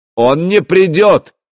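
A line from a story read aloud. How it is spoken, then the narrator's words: Shouted. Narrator (Russian): крикнул Вадимир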